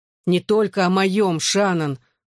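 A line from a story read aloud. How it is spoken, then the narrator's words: Loud groan. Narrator (Russian): громко застонал Джоуи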